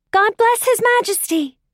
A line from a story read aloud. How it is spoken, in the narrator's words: they shouted